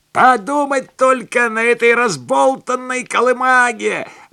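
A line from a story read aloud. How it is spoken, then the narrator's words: Yelling. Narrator (Russian): орал тренер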